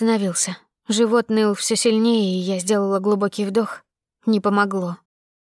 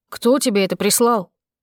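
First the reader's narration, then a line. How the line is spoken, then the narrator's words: Bark. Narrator (Russian): рявкнул он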